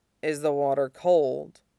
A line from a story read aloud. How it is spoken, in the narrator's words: Suizhou murmurs, the breath of the words stroking cold against the top of Tongfan's wet shoulder